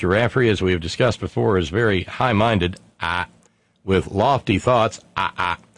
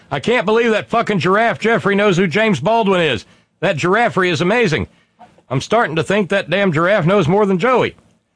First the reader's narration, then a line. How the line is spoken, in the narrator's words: our beloved Tracy in Encino, California, holler out